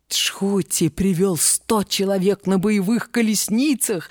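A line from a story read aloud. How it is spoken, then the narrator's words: Plain. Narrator (Russian): сказал гонец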